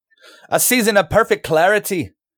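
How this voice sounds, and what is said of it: Put-on Irish accent. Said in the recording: “I hate your Irish accent. You're part Irish and I hate your accent.”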